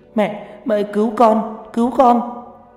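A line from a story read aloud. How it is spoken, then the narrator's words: Wailing in pain. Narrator (Vietnamese): Mai gào khóc trong đau đớn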